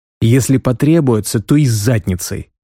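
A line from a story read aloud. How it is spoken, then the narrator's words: Cheered-up snort. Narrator (Russian): Рязана хмыкнул и приободрился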